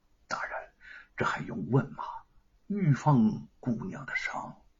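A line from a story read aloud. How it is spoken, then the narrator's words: Soft-spoken. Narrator (Chinese): 随从轻声的说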